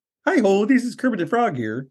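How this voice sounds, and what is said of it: Higher-pitched Kermit the Frog impression. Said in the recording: “Kermit the Frog sounds like this. Kermit the Frog's a little higher.”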